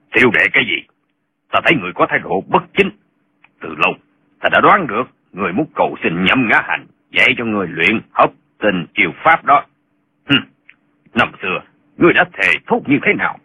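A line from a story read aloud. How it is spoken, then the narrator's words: Cold. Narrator (Vietnamese): Hoàng Trung Công lạnh lùng nói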